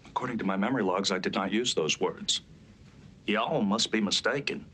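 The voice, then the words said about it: Southern accent. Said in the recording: “a Southern accent like that”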